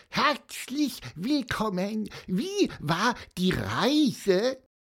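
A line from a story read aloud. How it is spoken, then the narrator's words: Squeak. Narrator (German): piepste Pieper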